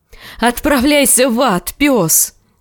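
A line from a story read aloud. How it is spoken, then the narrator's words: Shrieking in helpless rage. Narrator (Russian): в бессильной ярости завизжала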